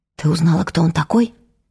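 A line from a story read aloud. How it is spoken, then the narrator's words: Quiet question. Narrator (Russian): тихо спросила Вера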